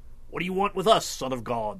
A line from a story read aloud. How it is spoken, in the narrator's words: They shouted